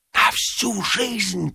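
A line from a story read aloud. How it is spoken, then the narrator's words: Whispering. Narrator (Russian): прошептал Ипполит Матвеевич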